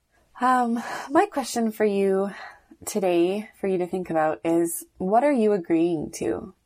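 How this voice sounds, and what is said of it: Voice sounds sick. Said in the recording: “Sorry about my voice. I'm sick today.”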